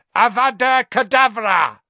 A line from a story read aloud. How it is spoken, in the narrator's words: a second voice which screeched